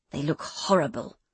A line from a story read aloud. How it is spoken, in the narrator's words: she hissed